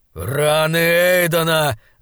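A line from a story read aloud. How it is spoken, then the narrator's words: Growled. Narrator (Russian): зарычал Айнскалдер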